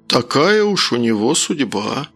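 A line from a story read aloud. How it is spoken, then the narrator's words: Sincere sigh. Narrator (Russian): Совершенно искренне вздохнул Харьков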